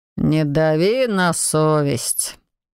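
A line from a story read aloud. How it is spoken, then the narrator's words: Gloomy, smirking. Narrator (Russian): мрачно отозвался хозяин теней и усмехнулся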